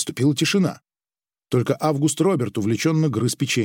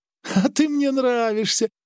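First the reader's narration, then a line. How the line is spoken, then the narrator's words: Laughing. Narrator (Russian): рассмеялся Джон, и лицо его снова смягчилось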